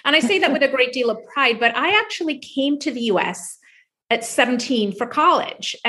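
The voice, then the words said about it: Slight foreign accent. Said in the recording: “you might hear it a little bit with my accent, but I'm a foreigner”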